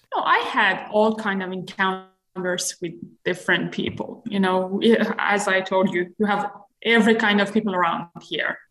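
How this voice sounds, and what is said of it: Slight accent. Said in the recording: “you have a bit of an accent”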